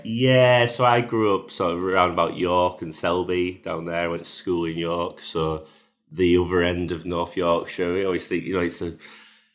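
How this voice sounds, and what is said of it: Yorkshire English accent. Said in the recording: “it's quite obvious from your accent... That you are actually from Yorkshire yourself, but not from around here.”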